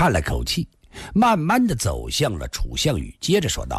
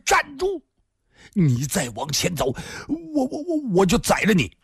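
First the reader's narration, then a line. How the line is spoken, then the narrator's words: Roaring. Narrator (Chinese): 楚项羽大吼一声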